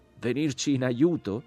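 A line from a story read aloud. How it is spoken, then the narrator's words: Shouted from above. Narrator (Italian): gridò la voce dall'alto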